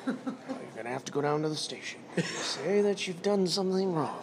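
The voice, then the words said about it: Calm radio-style fatherly voice. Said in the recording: “Like a radio voice. Like a very calm.”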